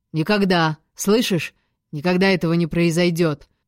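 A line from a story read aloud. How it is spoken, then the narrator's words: Barked shout. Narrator (Russian): рявкнул Родерик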